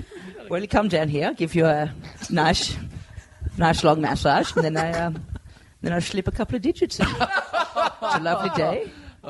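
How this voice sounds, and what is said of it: Fake Dutch accent. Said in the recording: “with a Dutch accent ... a good fake Dutch ... did the Dutch lisp?”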